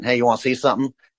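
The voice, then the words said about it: Put-on strong Southern accent. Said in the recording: “in that very Southern accent,”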